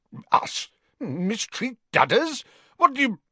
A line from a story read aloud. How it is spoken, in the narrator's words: began Uncle Vernon furiously